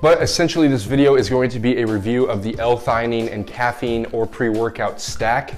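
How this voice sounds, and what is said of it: Slightly raspy voice. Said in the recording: “I do have a bit of a head cold and my voice is a little bit raspy”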